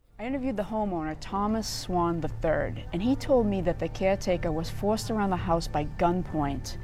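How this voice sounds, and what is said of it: Strong Boston accent. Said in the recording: “Boston ... going viral recently on social media, basically because of her accent”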